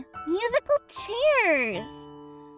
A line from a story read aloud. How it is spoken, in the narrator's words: cried, not unhappily